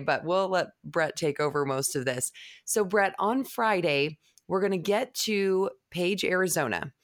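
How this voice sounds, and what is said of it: Rough, strained voice. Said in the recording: “excuse my voice. I've been announcing a lot lately, and so my voice is a little bit rough today”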